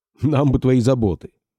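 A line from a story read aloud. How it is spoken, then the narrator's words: Snorting. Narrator (Russian): хмыкнул Чугунцов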